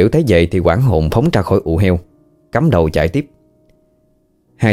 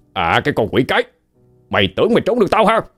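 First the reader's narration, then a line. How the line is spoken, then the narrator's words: Shouting. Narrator (Vietnamese): Tên Trọc liền quát lên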